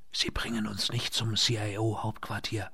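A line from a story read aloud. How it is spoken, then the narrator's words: Whispered. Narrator (German): flüsterte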